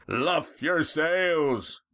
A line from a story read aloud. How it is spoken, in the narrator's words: roared the mighty voice again